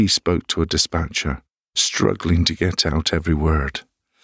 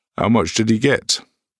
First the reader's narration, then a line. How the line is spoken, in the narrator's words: I called out